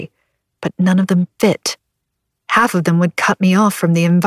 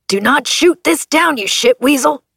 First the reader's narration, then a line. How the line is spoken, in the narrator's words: Bug yelled